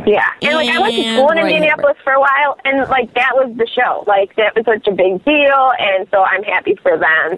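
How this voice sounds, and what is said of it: Nasal Chicago accent. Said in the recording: “what is your accent? ... I'm from Chicago. Can you tell? ... Yes, very much so ... Very nasally ... this Chicago accent that you have is a tone I couldn't even hit”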